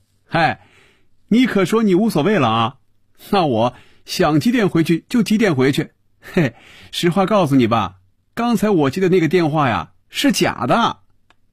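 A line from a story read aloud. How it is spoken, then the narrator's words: Laughing aloud. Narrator (Chinese): 笑出了声 说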